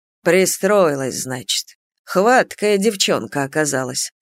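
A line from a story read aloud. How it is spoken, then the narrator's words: Grumbling. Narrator (Russian): проворчал он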